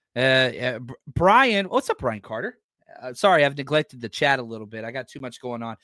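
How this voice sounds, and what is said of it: Strained, worn-out voice. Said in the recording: “I talk more and I talk faster whenever I'm doing these mock drafts. ... My voice is struggling”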